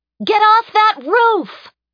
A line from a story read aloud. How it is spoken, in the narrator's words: nearly go deaf as Ashley shouted